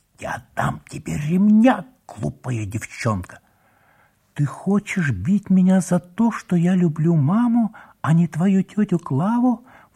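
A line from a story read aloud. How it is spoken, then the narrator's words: Agitated girl's question. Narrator (Russian): взволнованно спросила девочка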